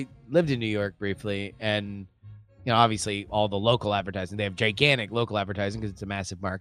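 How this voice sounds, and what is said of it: Usual voice. Nothing is said of it.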